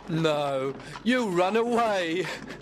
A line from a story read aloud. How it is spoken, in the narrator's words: laughed his friend Gregory